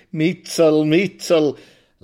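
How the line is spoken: Crooked-mouthed laughing. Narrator (German): lacht er mit seinem schiefen, hässlichen Mund unter der zerdrückten Nase

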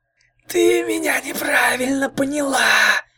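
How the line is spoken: Hissing. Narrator (Russian): прошипела лунная ведьма

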